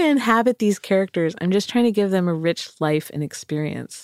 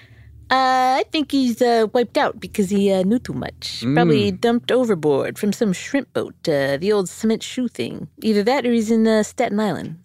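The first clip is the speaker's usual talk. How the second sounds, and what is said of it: Put-on character accent. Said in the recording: “I want to apologize for all my accents right now”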